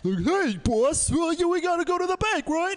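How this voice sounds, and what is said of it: Deep cartoonish dumb-guy voice. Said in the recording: “the generic dumb guy voice when they do an impression of me ... I have a deep voice ... I don't feel like I sound like a cartoon dumb guy”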